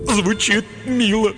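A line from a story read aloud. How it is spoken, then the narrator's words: Sob. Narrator (Russian): всхлипнул тупица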